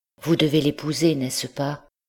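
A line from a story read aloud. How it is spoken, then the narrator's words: Anguished voice. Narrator (French): lui dit, d'une voix déchirée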